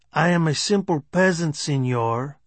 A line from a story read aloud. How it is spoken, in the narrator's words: Cholo said in his stage Mexican accent